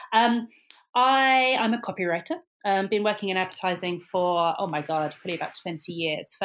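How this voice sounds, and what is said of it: British accent. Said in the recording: “I'm a Brit, as you can probably guess from the accent”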